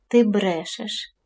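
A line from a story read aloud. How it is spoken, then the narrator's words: Boy speaking quietly. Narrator (Ukrainian): тихо мовив хлопець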